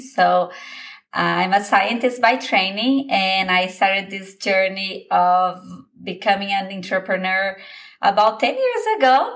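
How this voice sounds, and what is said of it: Brazilian Portuguese accent. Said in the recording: “Your accent is so beautiful. ... I'm originally from Brazil.”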